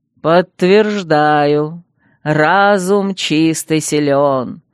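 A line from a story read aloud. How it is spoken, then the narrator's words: Pleased drawl. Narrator (Russian): довольно протянул Арсак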